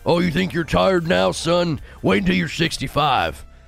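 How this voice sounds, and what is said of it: Old grandpa voice. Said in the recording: “You sound like an old grandpa”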